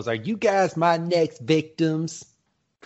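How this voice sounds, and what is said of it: Imitates a cartoon character's voice. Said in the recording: “That was my impersonation because I just heard his voice right now.”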